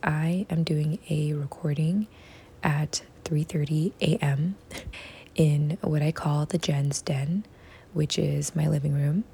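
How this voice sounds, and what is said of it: Very quiet, hushed speaking voice. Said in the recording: “very quiet recording ... my voice is really quiet right now”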